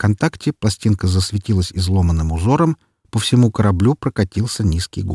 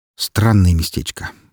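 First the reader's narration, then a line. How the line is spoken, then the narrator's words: Snort. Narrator (Russian): хмыкнул я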